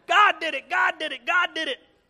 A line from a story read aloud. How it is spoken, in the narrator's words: she screaming